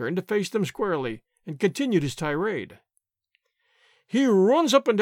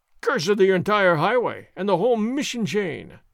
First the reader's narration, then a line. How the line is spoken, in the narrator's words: Sergeant Gonzalez roared